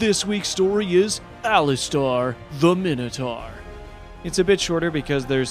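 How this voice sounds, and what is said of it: Usual voice. Nothing is said of it.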